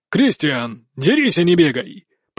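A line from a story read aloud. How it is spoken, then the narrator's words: Booming shout. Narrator (Russian): прогремел наставник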